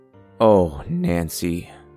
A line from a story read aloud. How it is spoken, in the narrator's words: I muttered